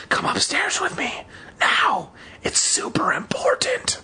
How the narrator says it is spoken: I whispered in her ear

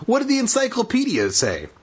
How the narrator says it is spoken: Daniel asked eagerly

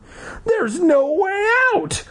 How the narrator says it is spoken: Libby wailed

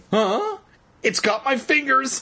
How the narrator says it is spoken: Evan cried shrilly

